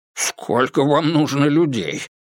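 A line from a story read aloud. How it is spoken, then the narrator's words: Grumbled. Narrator (Russian): проворчал Гонзага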